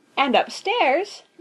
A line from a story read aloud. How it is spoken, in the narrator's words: continued Daisy happily